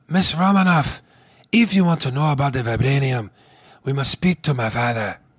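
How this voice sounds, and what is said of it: Breathy put-on African accent. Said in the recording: “a guy who's not African by any means, who does a great African accent ... he was breathy”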